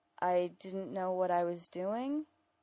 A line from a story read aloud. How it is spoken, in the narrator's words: he said weakly